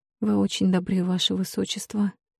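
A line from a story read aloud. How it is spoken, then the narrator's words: Mumbling princess. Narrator (Russian): пробормотала принцесса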